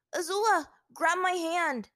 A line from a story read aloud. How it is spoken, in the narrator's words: Aang shouted to her